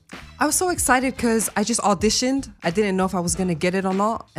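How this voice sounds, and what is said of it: Australian accent. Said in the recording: “I stay in Australia. ... If you couldn't have figured out that accent.”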